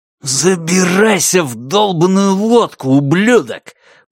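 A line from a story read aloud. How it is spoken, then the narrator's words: Angry hiss. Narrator (Russian): прошипел Ванни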